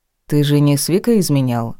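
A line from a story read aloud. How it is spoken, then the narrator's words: Dry question. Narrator (Russian): сухо поинтересовался Ник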